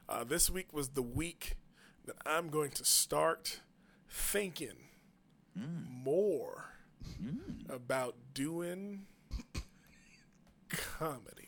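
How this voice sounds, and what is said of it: Christopher Walken impression with long pauses. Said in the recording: “unnecessary pauses ... your Christopher Walken impression.”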